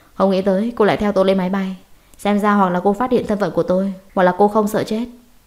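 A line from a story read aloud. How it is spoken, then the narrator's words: Cold, tense. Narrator (Vietnamese): vẻ mặt lạnh lùng co giật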